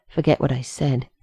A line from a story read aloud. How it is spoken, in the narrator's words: John muttered to Rodney